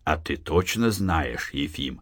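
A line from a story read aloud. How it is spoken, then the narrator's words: Hoarse voice. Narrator (Russian): хриплым голосом проговорил какой-то верзила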